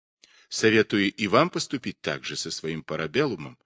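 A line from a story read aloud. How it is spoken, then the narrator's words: Plain. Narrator (Russian): сказал он Паулюсу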